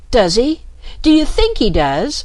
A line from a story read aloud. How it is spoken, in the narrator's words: cried the Rat